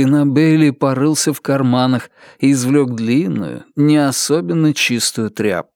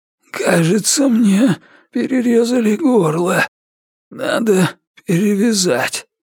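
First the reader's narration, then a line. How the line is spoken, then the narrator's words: Hoarse, creaky whisper. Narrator (Russian): Наконец он проговорил хриплым, скрипучим шепотом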